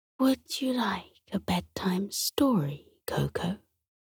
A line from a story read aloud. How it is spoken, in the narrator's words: His grandma whispered